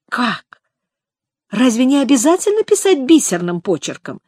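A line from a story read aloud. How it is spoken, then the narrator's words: Joyful exclamation. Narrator (Russian): радостно воскликнула Элизабет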